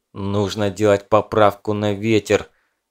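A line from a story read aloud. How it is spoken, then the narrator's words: Angry, through gritted teeth. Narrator (Russian): зло процедил Николай стрелку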